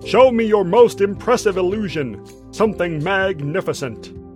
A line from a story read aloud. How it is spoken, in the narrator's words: boomed the Duke